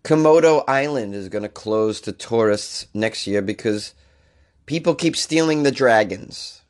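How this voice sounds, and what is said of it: Voice sounds sick, under the weather. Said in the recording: “apologize for my voice today. I'm a little under the weather”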